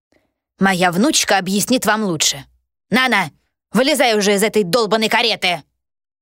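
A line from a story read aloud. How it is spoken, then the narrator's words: Barked. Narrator (Russian): рявкнула Астра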